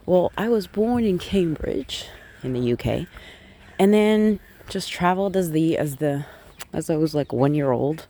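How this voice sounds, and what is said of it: Slight American accent with twang. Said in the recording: “a little sort of accent, a twang ... picked up an American accent”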